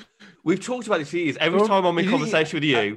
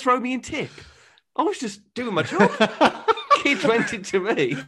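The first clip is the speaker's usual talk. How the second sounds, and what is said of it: Put-on posh northern English accent. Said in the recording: “he tried to get a northern accent in there as well ... I dip into a pretend northern accent ... there just wasn't that twang to it ... it's a posh northern accent”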